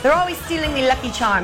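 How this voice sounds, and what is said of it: Mocking put-on Irish accent. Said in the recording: “Luck of the Irish ... a mocking Irish accent”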